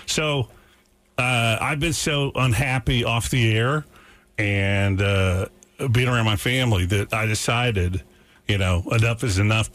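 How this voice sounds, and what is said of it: Hoarse voice. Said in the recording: “I'm also on a medication that makes my voice hoarse. I'm back on that.”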